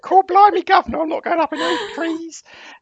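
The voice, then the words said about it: Put-on Cockney British accent. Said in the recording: “This is my British accent. ... I was a bit Eliza Doolittle there, wasn't I?”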